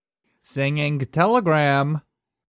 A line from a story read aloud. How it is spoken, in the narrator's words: said brightly